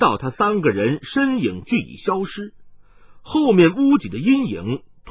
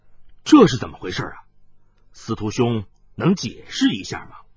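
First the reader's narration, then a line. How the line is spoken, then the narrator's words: Low deep voice. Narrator (Chinese): 白星武沉声说道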